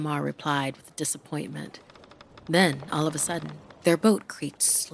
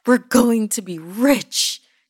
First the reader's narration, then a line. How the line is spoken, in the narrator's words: Jijimar shouted